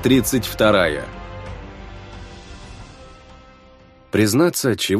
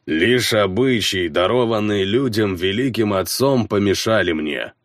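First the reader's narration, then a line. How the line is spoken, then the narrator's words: Growl. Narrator (Russian): прорычался конунг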